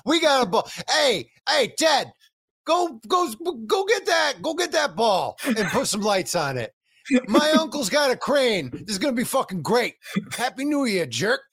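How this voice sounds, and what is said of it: Cartoon mom voice drifting Boston. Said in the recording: “That's a really good Linda Belcher impression. ... It goes Boston”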